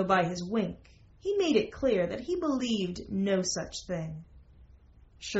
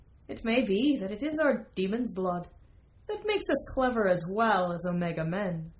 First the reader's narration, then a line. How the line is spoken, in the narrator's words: Merlin laughed again, for he was full of laughter, and said